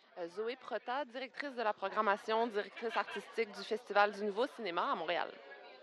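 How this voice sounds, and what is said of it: Light Québécois accent, partly French. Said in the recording (French): “il y a un petit accent là... Accent québécois, accent montréalais... j'ai un accent qui est un peu français pour les Québécois, un peu québécois pour les Français”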